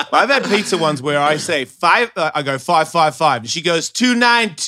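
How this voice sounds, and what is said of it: Australian accent. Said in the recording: “your accent was a little thicker ... with just a pure Australian accent,”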